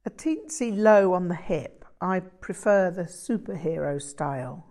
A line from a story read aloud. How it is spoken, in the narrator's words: laughed